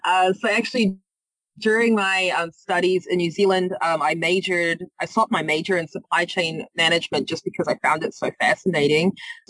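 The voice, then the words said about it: New Zealand accent. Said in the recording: “You might hear from my accent. I'm not from the area. I'm from New Zealand.”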